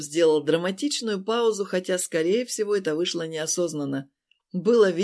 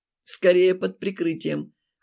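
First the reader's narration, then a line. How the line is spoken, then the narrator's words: Snorting. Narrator (Russian): хмыкнул Глеб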